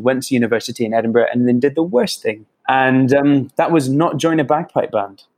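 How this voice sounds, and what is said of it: English accent. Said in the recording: “I've always been very self-conscious of my accent ... having an English accent.”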